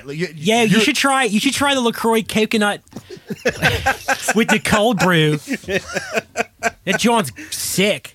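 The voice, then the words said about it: Put-on Philadelphia accent. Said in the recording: “with her Philly accent. ... Are you shooting on Philly?”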